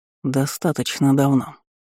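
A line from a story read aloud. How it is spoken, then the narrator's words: Through gritted teeth. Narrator (Russian): процедил сквозь зубы мой напарничек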